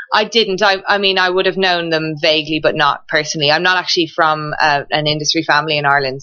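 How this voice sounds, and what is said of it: Irish brogue accent. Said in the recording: “you don't have a New York accent... I'm keeping the Irish brogue”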